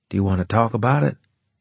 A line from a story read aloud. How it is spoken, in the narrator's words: I asked, gently